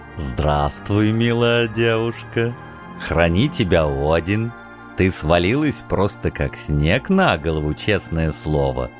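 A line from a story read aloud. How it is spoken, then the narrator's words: Calm. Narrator (Russian): спокойно произнесло существо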